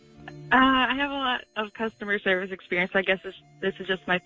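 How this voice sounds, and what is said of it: Polite customer-service phone voice. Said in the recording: “This isn't real. You don't talk like that. What's wrong with your voice, man? ... phone voice ... Oh, we got the customer service.”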